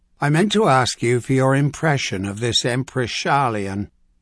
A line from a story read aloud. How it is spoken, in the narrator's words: he said, forcing himself to speak the hated name in an almost normal tone